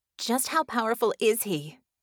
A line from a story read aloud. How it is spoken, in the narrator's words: Bella asked breathlessly